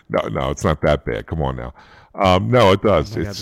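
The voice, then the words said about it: Very deep, bassy voice. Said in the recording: “deep at this point ... A lot of bass ... You sound like you're going to Luther Vandross ... it's easily like three octaves lower”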